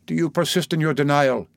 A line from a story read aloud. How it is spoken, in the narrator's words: demanded the president coldly